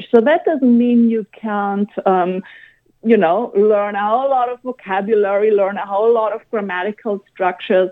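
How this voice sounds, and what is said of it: German accent in English. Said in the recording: “I've grown up in Germany. You can hear that.”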